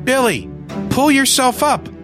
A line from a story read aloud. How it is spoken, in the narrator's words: I yelled to him